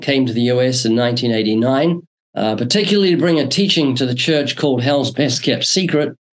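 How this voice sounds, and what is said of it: Slight New Zealand accent. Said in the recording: “I'm originally from New Zealand ... still got a slight accent”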